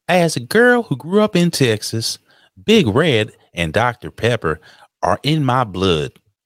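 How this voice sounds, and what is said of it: Put-on female Texas accent. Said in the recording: “I don't know how to do a Texas accent for a female.”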